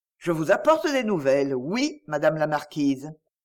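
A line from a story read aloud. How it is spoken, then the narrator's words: Serious, solemn reply. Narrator (French): le notaire répondit d'un ton sérieux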